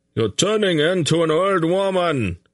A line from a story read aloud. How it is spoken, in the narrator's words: Greldik shouted back